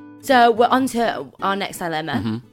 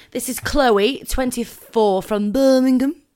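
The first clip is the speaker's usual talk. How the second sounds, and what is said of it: Poorly done put-on Birmingham accent. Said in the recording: “That was awful. ... That was terrible. ... I can do accents.”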